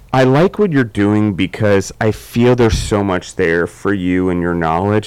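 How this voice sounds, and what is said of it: Mixed American regional accent. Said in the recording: “everyone can probably hear I say hot dog funny. I'm from Maryland, so I don't quite have Southern accent. I don't quite have a New York accent, and then throw Colorado and Georgia in the mix now, and I'm all mixed up”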